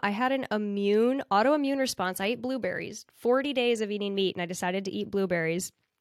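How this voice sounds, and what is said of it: Nasally, congested voice. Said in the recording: “my voice is a little like nasally right now”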